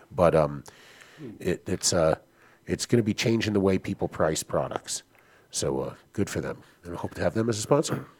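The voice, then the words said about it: Hoarse, partly lost voice. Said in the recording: “you lose your voice ... you've already lost like 30% during the show ... That's the done deal on my voice. 30% off.”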